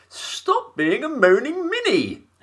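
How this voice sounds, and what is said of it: Imitates another person's voice. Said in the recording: “my little Thatcher impression ... Very good. Yeah, very good.”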